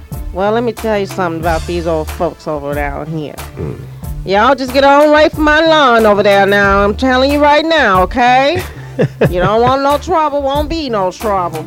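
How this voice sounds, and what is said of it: Put-on Southern country accent. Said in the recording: “I got Southern ... my little country, my Southern accent”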